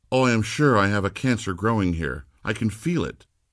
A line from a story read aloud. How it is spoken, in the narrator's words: exclaim